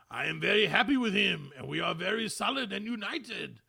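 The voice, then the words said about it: Poor attempt at French accent. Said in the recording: “I have to try and do a French accent. ... just as bad. ... I can't do a French lady.”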